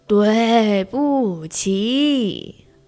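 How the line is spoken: Loud. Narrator (Chinese): 大声地说

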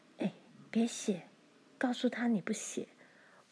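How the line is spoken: Low voice. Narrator (Chinese): 他低声说

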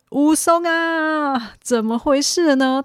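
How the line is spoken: Calling out. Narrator (Chinese): 他喊

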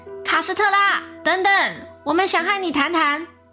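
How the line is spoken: Shouting. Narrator (Chinese): 桑德拉大喊道

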